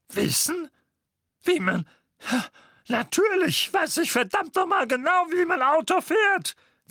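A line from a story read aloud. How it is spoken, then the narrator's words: Hissed. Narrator (German): zischte Onkel Vernon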